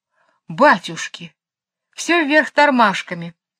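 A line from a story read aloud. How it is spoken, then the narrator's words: Exclaiming. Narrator (Russian): воскликнул Джейн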